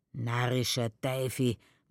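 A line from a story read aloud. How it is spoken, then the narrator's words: Murmuring. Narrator (German): murmelt der Schirmoser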